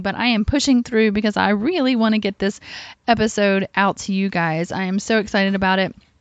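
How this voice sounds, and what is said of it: Voice affected by illness. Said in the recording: “sorry about my voice... I think I have a touch of bronchitis”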